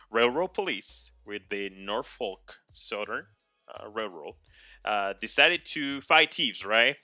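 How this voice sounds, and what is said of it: Speaks with a noticeable accent. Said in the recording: “I apologize if I don't say these names correctly. It's just, this is my accent.”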